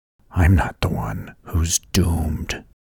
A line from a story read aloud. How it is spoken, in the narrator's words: Charles whispered back